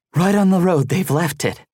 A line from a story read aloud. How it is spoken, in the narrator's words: one of them panted